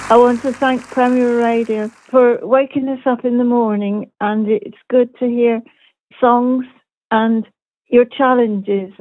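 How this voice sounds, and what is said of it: Cornish English accent. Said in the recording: “Love that proper Cornwall accent”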